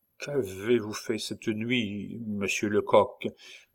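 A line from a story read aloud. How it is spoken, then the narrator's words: Nervous young man stammering. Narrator (French): balbutia notre jeune Alsacien, au front de qui perlaient des gouttes de sueur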